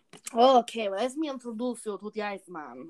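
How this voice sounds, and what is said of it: Put-on Transylvanian vampire accent. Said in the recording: “I don't know why I'm doing a Transylvanian accent, because he's definitely not a vampire”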